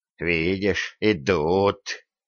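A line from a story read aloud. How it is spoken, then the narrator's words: Hateful hiss, village elder. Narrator (Russian): с ненавистью прошипел староста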